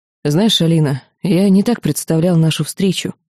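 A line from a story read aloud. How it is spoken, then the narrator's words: Sigh. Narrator (Russian): вздохнул Антонов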